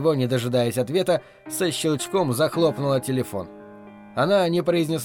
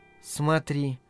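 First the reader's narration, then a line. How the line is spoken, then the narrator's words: Whisper. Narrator (Russian): шепотом произнесла она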